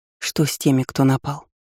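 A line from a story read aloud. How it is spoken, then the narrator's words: Lifeless flat voice. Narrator (Russian): спросила я безжизненным голосом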